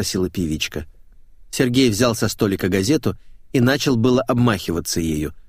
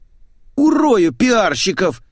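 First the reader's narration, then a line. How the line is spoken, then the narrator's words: Howling. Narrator (Russian): взвыл Митяев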